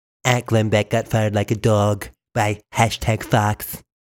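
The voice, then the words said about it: Imitates another person's voice. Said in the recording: “my best Donald Trump impersonation”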